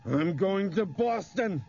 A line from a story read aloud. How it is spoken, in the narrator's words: he shrieked